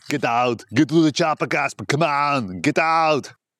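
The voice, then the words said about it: Arnold Schwarzenegger impression. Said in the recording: “That's a little Arnold snippet ... Arnold impersonation”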